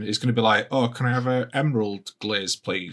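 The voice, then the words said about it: Imitates another person's voice. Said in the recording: “That was my impression”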